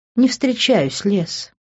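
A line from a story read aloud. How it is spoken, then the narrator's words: Tender purr. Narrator (Russian): нежно промурлыкала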